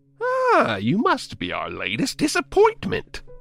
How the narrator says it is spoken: the clown said in a typical silly clown voice, honking his stupid nose

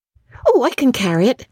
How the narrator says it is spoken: the child responded cheerfully

